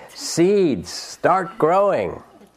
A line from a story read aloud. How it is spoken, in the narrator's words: shouted